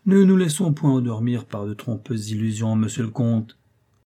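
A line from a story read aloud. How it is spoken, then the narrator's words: Sigh. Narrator (French): soupira-t-il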